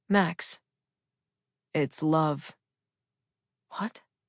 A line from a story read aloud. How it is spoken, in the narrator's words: I said to myself under my breath